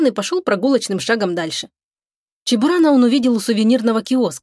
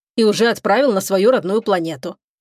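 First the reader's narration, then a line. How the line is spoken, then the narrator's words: Grumbling. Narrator (Russian): проворчал старший диспетчер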